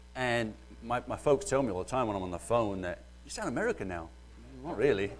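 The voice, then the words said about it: Mellowed British accent. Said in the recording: “excuse my British accent ... it's mellowed some”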